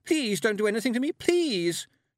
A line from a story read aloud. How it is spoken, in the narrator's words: she cried